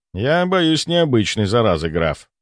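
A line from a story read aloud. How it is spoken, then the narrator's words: Calm. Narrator (Russian): спокойно ответил я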